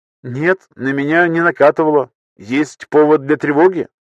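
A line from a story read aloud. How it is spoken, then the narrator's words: Snorting. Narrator (Russian): Злобный хмыкнул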